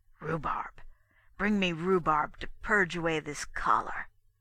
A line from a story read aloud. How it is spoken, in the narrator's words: Corsus said under his breath